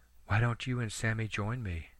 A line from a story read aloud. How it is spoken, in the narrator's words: she asked softly